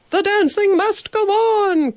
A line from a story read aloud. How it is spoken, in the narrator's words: cried the hotel manager, Mr